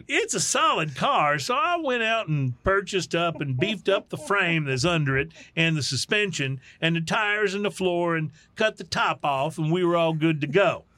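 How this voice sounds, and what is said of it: Put-on Texas accent. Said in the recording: “I don't know why I gave the Nebraska man a Texas accent.”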